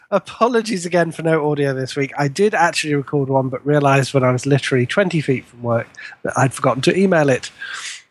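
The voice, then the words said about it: Put-on half Scottish, half American accent. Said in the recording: “for rigor mortis, we just need half Scottish, half Scottish. American accent.”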